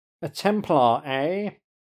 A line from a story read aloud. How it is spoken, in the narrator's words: he says in a refined accent